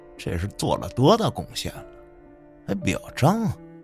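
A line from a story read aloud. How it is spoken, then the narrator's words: Low muttering. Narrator (Chinese): 我听见他小声嘟嘟着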